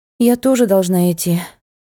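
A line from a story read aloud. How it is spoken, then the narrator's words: Sighing. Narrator (Russian): вздохнула Тель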